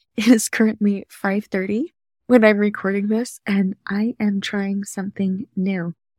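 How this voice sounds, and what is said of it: Slightly sleepy voice. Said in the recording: “my voice is a little bit sleepy still”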